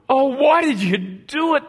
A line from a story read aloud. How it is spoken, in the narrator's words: They groaned